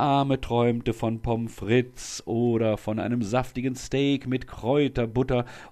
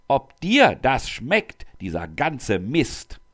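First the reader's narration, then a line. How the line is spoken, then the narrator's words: Angry bellow. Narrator (German): brüllte Kotzbrocken wütend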